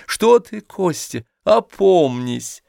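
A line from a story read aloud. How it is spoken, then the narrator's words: Laughing speech. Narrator (Russian): смеясь сказала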